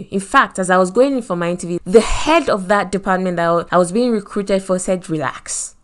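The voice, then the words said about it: Nigerian accent. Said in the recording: “Me with my Nigerian accent”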